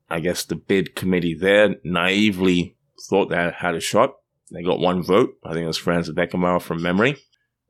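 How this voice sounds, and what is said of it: Australian accent. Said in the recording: “as you can tell by my accent, I'm not from Canada. I'm from Australia”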